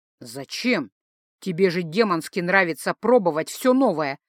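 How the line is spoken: Amused snort. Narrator (Russian): хмыкнул Гай

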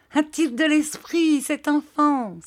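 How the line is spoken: Exclaimed. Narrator (French): s'écria Peggotty

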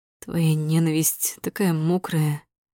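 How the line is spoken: Hoarse rasp. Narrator (Russian): хрипит

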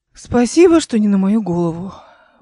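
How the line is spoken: Breathy exhale. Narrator (Russian): выдохнула она

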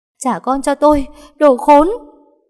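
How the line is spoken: Sobbing, screaming. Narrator (Vietnamese): Ngân vừa khóc vừa gào

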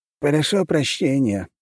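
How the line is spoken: Sighing mayor. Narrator (Russian): вздохнул мэр

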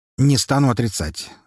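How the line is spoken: Calm admission. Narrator (Russian): спокойно признался Харитонов

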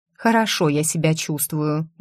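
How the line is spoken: Muttered. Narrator (Russian): буркнула

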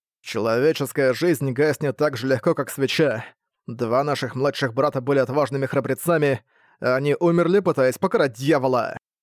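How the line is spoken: Heavy tone. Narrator (Russian): Тяжелым тоном проговорил он

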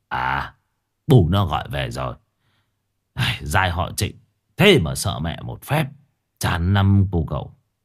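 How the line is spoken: Smiling. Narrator (Vietnamese): Ông mỉm cười rồi bảo

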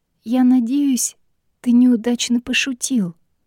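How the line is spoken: Hoarse whisper, faint smile. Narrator (Russian): хрипло прошептала Мэгги со слабой улыбкой

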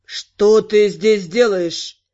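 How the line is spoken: Almost rude demand. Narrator (Russian): Почти грубо потребовал ответа Спирос

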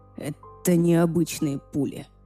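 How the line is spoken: Hoarse rasp. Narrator (Russian): прохрипел он

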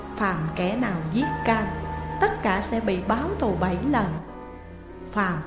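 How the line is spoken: Soft speech. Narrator (Vietnamese): La Thiên khẽ nói

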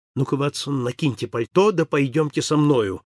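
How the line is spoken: Quick. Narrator (Russian): проговорил он быстро

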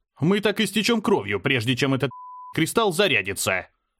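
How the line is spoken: Barking shout. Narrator (Russian): рявкнул я

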